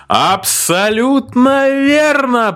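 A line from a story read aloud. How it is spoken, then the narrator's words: Host shouting. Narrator (Russian): прокричал ведущий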